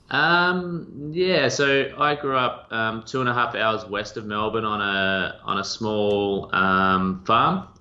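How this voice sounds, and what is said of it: Australian accent. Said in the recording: “judging from the accent, that you're probably an Aussie by birth”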